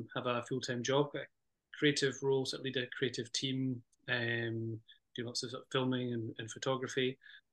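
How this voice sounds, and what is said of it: Lovely regional accent. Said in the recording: “your lovely accent”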